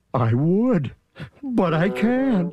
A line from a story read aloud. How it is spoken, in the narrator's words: sobbed poor Thidwick